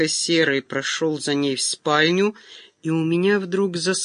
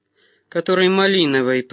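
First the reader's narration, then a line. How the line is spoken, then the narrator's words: Said through teeth. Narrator (Russian): процедил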